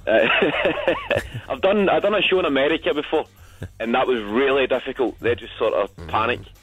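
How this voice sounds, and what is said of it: Scottish accent, toned down. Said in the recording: “the Tory Glen accent of Clybank, where I'm from, is totally a lot faster ... this is me speaking properly ... when it's Scottish, because it sounds quite angry. There's a lot of vowels.”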